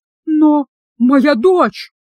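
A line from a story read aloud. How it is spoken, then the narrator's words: Sobbing. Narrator (Russian): Брэдшоу зарыдал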